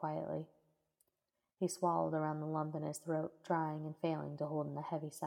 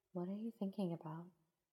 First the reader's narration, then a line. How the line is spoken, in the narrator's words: she asked softly